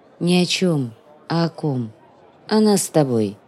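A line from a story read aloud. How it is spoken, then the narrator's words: Saddened voice. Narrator (Russian): ответила курносенькая прелесть погрустневшим голосом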